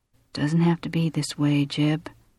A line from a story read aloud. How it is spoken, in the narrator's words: Audrey murmured